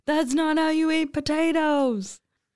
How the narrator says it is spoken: yell

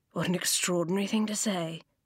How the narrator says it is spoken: the old man murmured

